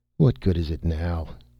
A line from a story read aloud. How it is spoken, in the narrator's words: said the astronomer bitterly